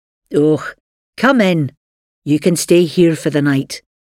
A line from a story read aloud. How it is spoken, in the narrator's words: said in a strong Scottish accent